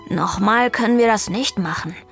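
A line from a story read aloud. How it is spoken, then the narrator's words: Growling. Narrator (German): knurrte Vivaldi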